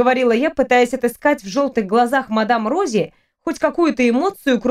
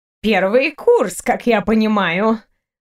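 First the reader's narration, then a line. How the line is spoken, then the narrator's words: Sighing. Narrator (Russian): вздохнула она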